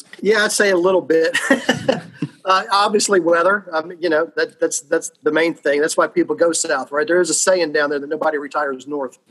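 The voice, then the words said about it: Slight Southern US twang. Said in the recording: “a little bit of a southern twang”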